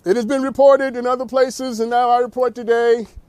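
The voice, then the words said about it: Formal speech-giving voice. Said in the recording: “I had to do my speech voice.”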